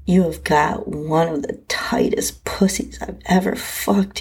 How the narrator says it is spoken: he groaned

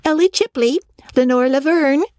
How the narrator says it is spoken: as stared, bewildered, she had chirped like an annoyed cockatoo

